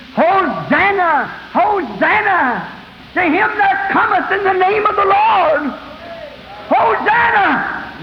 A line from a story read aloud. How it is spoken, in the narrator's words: Women were screaming